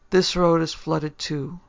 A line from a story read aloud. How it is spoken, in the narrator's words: he said in a discouraged voice